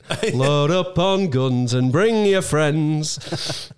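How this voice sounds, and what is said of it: Yorkshire accent. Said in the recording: “in a Yorkshire accent.”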